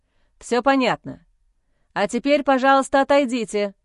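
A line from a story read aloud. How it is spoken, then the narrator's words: Commanding tone. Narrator (Russian): Командным тоном дал указание медик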